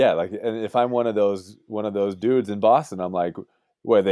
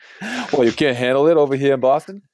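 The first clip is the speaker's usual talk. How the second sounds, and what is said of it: Weak put-on Boston accent. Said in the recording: “could you say that with a little more Boston accent ... That wasn't good.”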